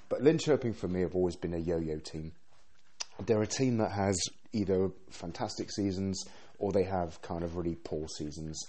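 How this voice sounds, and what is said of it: Rough voice recovering from illness. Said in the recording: “please excuse my voice. I've suffered from flu for almost 2 weeks now, so I'm just recovering my voice.”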